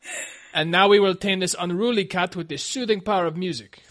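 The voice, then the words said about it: Poor Ricardo Montalban-style accent. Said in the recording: “That was my poor attempt at an accent. ... I thought it was very Ricardo Montalban.”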